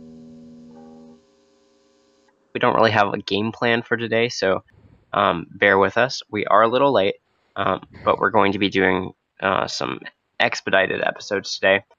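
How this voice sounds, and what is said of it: Croaky, hoarse voice from a cold. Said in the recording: “caught some vicious cold. So that is why my voice sounds like a frog.”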